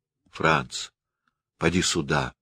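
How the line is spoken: Flat, expressionless call. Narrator (Russian): позвала она все тем же невыразительным голосом

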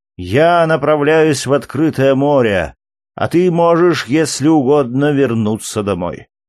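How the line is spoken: Grumpy reply. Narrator (Russian): ответил сварливым тоном

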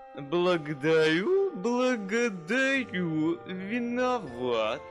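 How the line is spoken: Lisping. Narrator (Russian): шепелявит князь

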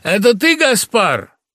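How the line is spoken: Shouting at full voice. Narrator (Russian): крикнул во весь голос

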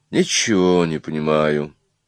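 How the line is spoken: Quiet. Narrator (Russian): тихо сказал некто в цилиндре

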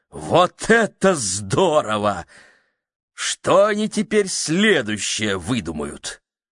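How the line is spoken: Delighted exclamation. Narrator (Russian): он пришел в восторг и воскликнул

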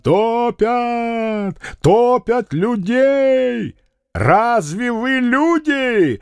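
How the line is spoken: Angry irritated shout. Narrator (Russian): зло крикнул Фома, раздраженный криками, которые точно кусали его

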